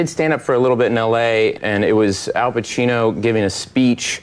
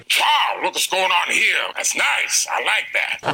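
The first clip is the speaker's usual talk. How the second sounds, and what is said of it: Al Pacino impression. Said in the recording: “he does a great Al Pacino ... your Al Pacino impression”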